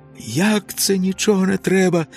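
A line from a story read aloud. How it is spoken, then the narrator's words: Shouted. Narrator (Ukrainian): закричав Ілько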